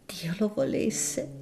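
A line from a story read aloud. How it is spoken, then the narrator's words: Groaned by a lady. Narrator (Italian): gemette Madama Segezzi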